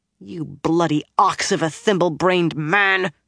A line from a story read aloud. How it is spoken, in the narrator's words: she growled